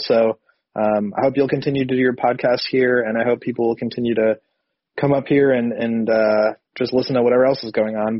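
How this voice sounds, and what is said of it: Sick, strained voice. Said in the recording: “my voice is kind of crazy. I've been sick the last couple of days, so I sound kind of weird”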